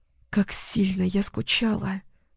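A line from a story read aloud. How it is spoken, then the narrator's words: Breathed out. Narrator (Russian): Выдохнула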